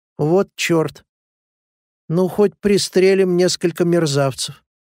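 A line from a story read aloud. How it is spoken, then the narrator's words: Contemptuous, insolently careless. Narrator (Russian): презрительным тоном, с дерзкой небрежностью, сказал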